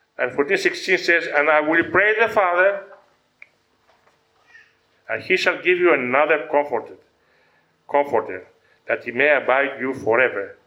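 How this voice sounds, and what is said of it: Greek accent. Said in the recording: “I'm also Greek, I have an accent”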